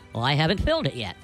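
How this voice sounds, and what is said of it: Irish lilt. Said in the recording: “his voice now taking on the lilt of Ireland.”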